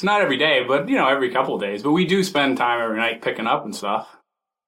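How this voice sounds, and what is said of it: Massachusetts New England accent. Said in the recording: “as a native of Massachusetts... I just love the way you say bacteria... That's a very New England thing to add an R, just the hint. The lightest soupçon of an R sound at the end of, say, bacteria or tuna”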